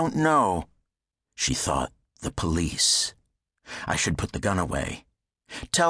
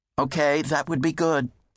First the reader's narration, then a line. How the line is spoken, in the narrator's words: the operator said